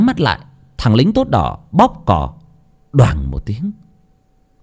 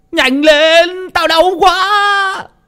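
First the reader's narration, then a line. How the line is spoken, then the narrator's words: Pained howling scream. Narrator (Vietnamese): Thằng Vạc bị tả tơi, nó gào lên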